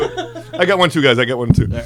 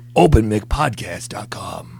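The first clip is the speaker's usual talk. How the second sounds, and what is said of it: Sexy radio announcer voice. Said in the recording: “That was my sexy radio voice.”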